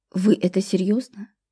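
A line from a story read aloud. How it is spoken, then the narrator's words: Suddenly hoarse question. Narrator (Russian): поинтересовалась она резко осипшим голосом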